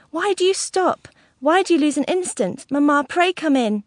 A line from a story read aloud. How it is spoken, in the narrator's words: cried Kate, really terrified for the moment